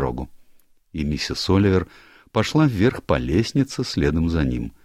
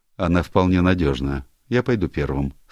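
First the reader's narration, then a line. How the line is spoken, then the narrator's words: Plain. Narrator (Russian): сказал павлин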